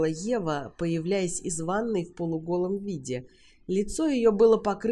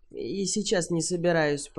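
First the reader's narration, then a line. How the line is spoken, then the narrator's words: Mutter. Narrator (Russian): пробормотал Уилт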